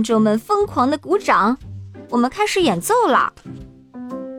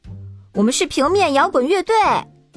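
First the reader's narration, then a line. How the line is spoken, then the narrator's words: Loud. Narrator (Chinese): 于是我抓过麦克风，大声说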